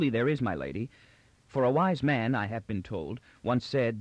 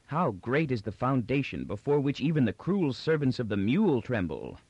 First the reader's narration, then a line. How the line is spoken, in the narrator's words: Magnifico Giganticus, once Bobo, exclaimed